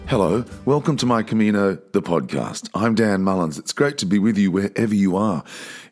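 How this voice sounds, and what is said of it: Slightly sore, strained voice. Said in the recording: “my voice sounds a little sore, that's because I've been singing”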